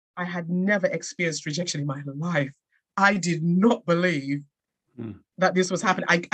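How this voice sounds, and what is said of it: English accent. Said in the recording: “with my English accent”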